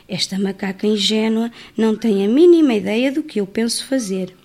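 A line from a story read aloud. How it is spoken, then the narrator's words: Sly whisper. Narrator (Portuguese): com um sorriso malicioso sussurrou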